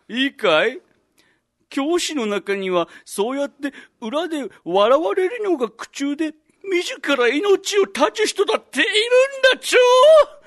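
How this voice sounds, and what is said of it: Cute character speaking style. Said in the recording (Japanese): “今度は喋り方可愛くて”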